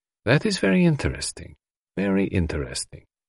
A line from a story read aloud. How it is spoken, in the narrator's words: murmured Poirot softly